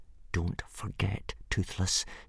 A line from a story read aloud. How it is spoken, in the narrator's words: said Hiccup through gritted teeth